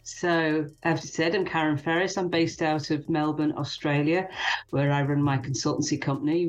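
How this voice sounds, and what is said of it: British accent. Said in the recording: “Originally from the UK, as you can probably tell by the accent”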